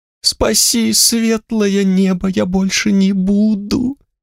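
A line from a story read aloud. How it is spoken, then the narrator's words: Whimpering thief. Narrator (Russian): хныкал воришка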